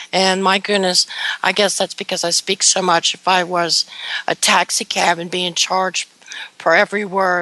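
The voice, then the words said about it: Hoarse, fading voice. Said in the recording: “I've lost my voice, or I'm in the process of losing it.”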